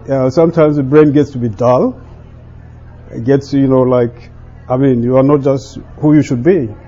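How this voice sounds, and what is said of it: Speaks with an accent. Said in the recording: “I have accent”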